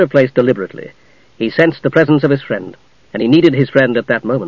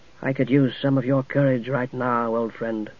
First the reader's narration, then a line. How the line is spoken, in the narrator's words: Tanis said quietly